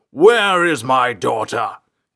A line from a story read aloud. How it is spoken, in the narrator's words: King Quosteed's voice boomed down the cavernous hallways of the Ranger's embassy